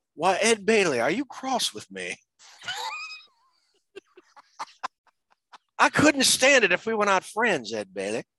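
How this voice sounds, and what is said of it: Imitates another person's voice. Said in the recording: “That's a really good impression”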